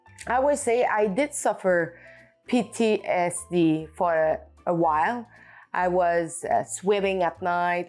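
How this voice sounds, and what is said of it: French accent speaking English. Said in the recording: “with my French accent”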